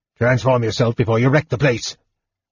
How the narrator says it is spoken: He snarled

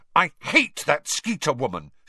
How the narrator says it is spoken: she burst out savagely

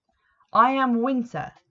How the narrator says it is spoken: said pompously

